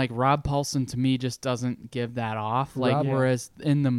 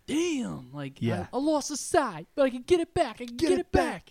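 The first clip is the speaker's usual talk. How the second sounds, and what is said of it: Raphael voice from the movie. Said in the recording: “that Raph voice from the first movie ... Raphael is cool but rude”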